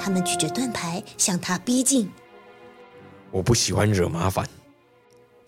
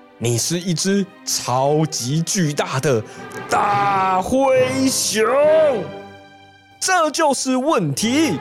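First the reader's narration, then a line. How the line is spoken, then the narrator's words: Roaring. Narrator (Chinese): 警察局长大吼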